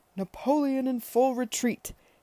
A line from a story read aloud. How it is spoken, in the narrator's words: he was bellowing happily